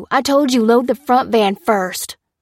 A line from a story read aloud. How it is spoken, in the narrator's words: snapped Willis